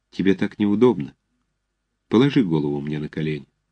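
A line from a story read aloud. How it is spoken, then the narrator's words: Quiet. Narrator (Russian): она сказала тихо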